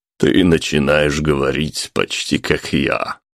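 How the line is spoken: Man's snort. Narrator (Russian): хмыкнул мужчина

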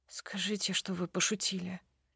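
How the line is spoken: Whispered plea. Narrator (Russian): прошу шепотом

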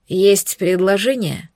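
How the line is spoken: Weary reply. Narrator (Russian): Устало откликнулся Эритар

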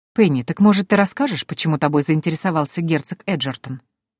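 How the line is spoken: Plain question. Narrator (Russian): спросила Дези

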